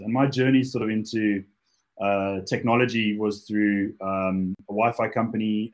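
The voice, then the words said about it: South African accent. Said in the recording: “those of you who picked up the accent, I'm originally from Cape Town, South Africa”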